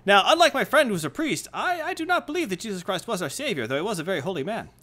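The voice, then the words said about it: Deliberately bad put-on rabbi accent. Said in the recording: “I'm a rabbi with a terrible accent.”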